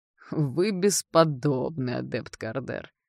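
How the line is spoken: Grumbling dean. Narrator (Russian): проворчал декан темного факультета

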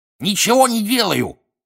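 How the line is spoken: Cackling. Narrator (Russian): прокудахтал Пивз

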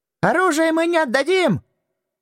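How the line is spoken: Young man's shriek. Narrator (Russian): взвизгнул один, самый молодой

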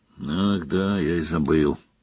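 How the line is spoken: Grumble. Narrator (Russian): буркнул Гарри

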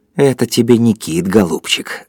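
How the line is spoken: Gloating mutter. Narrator (Russian): злорадно пробормотал Кондратьев

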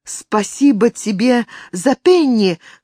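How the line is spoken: Called after. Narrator (Russian): крикнула ей вдогонку Алина

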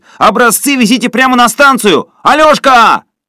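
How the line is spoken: Shouted after them. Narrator (Russian): парень в белых трусиках крикнул им вслед

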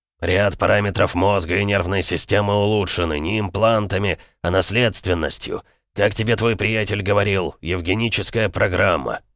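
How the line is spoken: Grumbled. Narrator (Russian): буркнул Эмик

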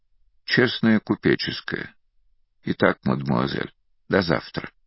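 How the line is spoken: Even, steady voice. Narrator (Russian): Ровным голосом произнес

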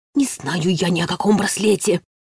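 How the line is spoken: Instant hiss. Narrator (Russian): Не задумавшись ни на секунду, зашипел Вячеслав

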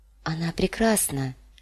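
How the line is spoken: Murmur. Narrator (Russian): пробормотала Дэнни

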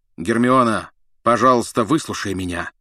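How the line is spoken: Loud bark. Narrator (Russian): гаркнул Люпин

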